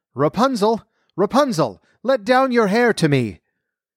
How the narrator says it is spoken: the sorceress wanted to enter, she stood below and called out

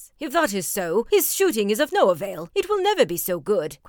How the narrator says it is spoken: cried Fairfax triumphantly

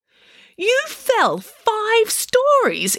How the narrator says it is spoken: exclaimed Nanny Piggins

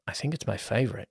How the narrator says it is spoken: said quietly

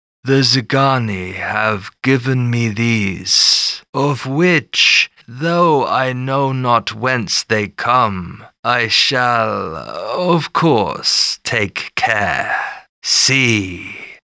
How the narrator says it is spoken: said in his smoothest voice

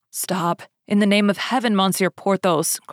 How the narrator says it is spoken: cried she

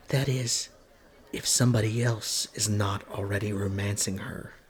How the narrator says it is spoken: whispered to him

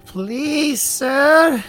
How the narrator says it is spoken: Carlos pleads

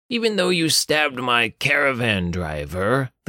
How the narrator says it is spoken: the guard captain growled at Ralph through gritted teeth

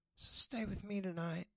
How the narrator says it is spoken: she whispered

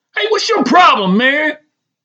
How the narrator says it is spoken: Rogan screams in reply

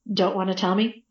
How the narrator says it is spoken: Lieutenant Sands asked

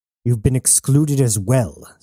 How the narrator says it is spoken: sneered Woods

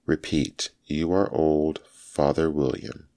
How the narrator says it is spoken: said the caterpillar

